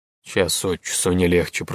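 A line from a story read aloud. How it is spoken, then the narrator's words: Muttered. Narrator (Russian): пробормотал Арчи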